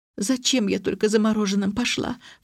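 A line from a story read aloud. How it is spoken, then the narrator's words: Sobbing. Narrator (Russian): всхлипнула гостья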